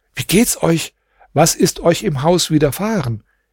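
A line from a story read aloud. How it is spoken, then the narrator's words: Startled cry. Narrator (German): Mein Herr erschrocken rief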